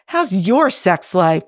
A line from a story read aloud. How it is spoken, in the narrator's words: Jim says desperately